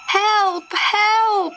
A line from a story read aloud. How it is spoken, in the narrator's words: shouted Kai